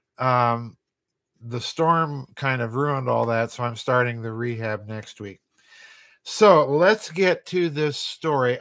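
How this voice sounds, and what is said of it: Voice still recovering, not fully normal. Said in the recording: “as you can tell, my voice is still recovering”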